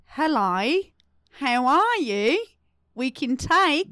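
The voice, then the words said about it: Put-on Australian accent. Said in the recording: “What accent is this? ... That's Australian. ... That was good. ... But you just hit the I.”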